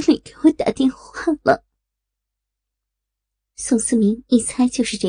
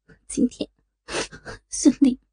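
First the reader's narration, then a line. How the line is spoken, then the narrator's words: Choked with sobs. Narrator (Chinese): 老婆哽咽着说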